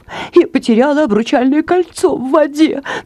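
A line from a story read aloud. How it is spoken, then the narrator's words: Sobbing. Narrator (Russian): всхлипнула госпожа Спандикова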